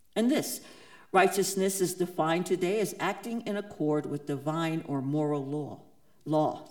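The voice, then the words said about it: New York accent. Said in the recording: “Sorry about the New York accent. It gets in there sometimes.”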